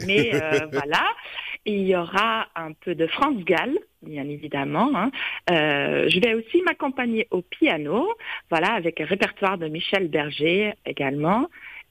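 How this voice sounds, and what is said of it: Flemish Belgian accent in French. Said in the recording (French): “mon petit accent, c'est belge, je suis flamande”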